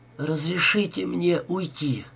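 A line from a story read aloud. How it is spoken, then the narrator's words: Heavy exhale. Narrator (Russian): тяжело выдохнула она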